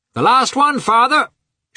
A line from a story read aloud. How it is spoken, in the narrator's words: shouted the lad